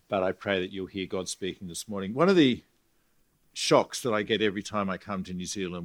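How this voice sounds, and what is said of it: Australian accent. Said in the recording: “Sorry about the Australian accent. It's the only one I have.”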